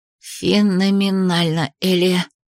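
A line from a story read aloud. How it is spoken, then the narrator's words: Breathless exhale. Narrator (Russian): выдохнула Ри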